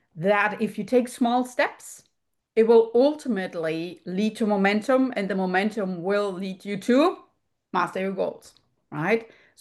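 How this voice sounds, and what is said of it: German accent. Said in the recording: “you can hear from my accent, born in Europe, particularly in Germany”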